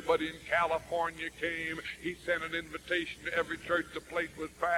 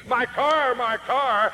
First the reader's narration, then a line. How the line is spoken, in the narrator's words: The little lady who owned the car jumped up and screamed